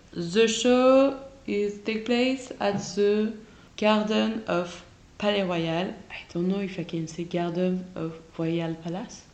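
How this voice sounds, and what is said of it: French accent speaking English. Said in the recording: “I mix my English accent in my French accent.”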